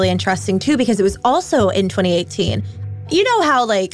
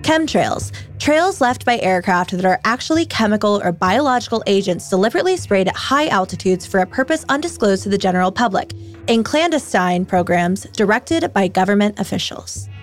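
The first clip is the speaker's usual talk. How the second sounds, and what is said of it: Imitation of Alexa voice assistant. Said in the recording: “let me do my best Alexa voice.”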